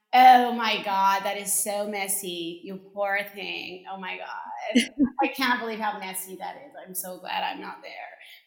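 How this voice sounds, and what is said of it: Put-on American accent. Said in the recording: “he had an American accent”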